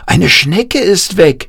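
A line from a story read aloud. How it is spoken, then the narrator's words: Called out. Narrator (German): rief Jan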